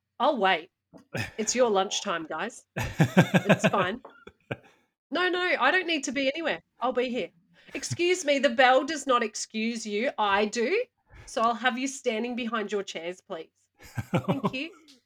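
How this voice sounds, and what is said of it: Stern teacher voice. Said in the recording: “That's my teacher voice.”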